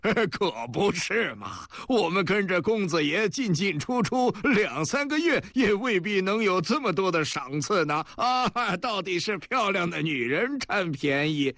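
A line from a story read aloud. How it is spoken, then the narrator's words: Fat man laughing. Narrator (Chinese): 另外一个黄胖子也笑着说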